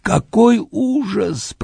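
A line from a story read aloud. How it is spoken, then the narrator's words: Moaning, sobbing. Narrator (Russian): простонал он, трясясь от рыданий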